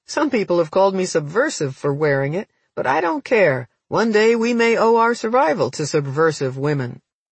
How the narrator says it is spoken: She laughed and said

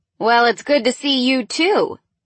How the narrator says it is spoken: Helen laughed

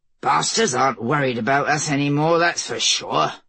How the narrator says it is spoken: Bermond muttered

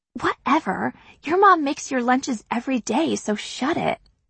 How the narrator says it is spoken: whisper

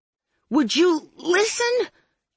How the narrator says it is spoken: I yelled

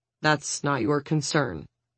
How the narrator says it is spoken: David says coldly

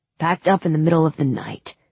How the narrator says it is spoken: Nikolai said

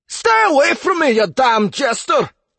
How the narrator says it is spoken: he roared

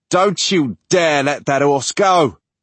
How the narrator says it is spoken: Mutt shouts back

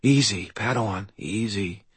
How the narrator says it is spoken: I said quietly

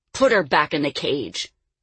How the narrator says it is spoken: Merrick snarled

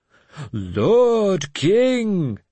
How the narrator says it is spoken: they shouted mockingly

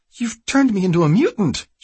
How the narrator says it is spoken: she cried

